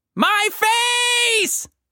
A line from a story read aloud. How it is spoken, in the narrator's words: Anita shrieked